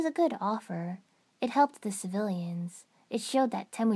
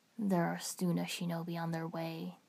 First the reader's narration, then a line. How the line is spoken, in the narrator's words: he murmured